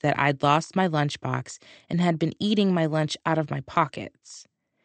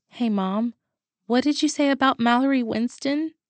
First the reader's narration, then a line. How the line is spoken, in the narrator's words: I squeaked